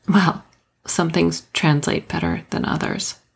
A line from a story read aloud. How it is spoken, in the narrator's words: I muttered